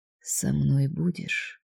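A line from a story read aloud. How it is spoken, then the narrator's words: Soft repetition. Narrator (Russian): мягко повторила Мирек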